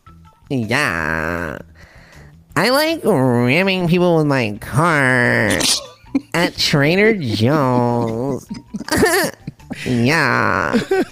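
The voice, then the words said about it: Put-on Valley Girl accent. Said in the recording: “Valley Girl accent ... That's a Coachella voice”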